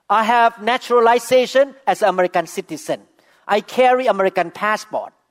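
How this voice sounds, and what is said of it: Non-native English accent. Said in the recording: “I don't look American. I speak with accent”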